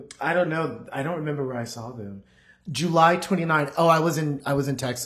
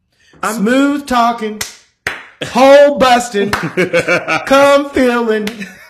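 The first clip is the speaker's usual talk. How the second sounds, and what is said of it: Put-on Southern American accent. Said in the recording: “why did you give them this accent? ... why is there this such a southern accent on top of it?”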